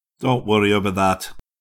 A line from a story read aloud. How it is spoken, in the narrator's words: said grimly